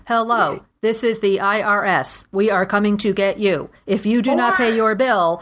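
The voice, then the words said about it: Imitates a robotic Siri voice. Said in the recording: “the Siri voice ... IRS with the Siri voice?”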